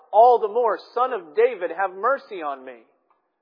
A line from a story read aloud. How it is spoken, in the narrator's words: he cried out